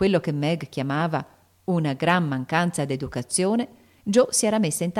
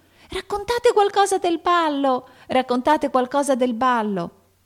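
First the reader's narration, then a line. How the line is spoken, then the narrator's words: Two sleepless voices shouting. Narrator (Italian): due voci insonnite gridarono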